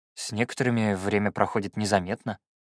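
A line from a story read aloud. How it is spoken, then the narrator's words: Grumbling. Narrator (Russian): проворчал я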